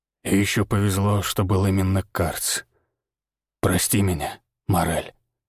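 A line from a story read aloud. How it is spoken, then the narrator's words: Hoarse whisper. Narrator (Russian): хрипло прошептал Григор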